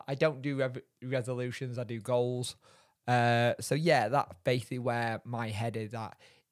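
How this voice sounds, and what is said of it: Voice sounds ill. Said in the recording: “If you can hear it in my voice, I have been ill... I got the dreaded flu cold thing”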